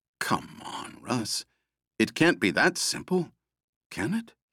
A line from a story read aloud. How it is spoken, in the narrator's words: he muttered